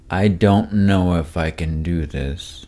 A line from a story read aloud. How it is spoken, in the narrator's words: Slowly, fearing to anger the Dryad, he said